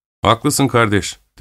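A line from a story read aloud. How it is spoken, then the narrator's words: Plain. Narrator (Turkish): dedi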